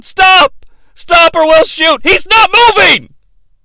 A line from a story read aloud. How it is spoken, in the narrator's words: Some security guards are running towards him, yelling